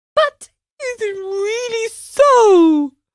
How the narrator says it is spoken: asked sobbing bitterly

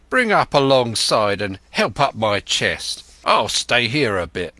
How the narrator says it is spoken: he cried to the man who trundled the barrow

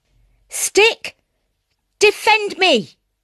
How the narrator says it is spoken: cried the boy

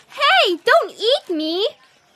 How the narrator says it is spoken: little voice squeaked

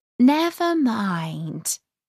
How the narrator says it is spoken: Alice said in a soothing tone

